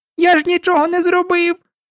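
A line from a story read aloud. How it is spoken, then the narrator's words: Squealing while struggling. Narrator (Ukrainian): пручаючись, запищав Гай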